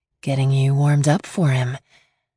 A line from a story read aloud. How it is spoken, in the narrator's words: she purred into my neck